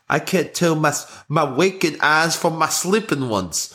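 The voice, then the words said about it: Bad put-on English accent. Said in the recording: “talking in a really, really crappy English accent ... it's not good. I don't think it's a very good accent.”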